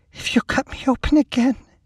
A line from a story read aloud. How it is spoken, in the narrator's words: she said in a small voice